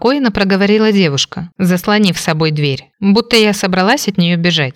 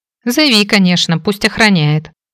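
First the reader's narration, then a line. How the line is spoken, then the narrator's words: Amused snort. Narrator (Russian): хмыкнула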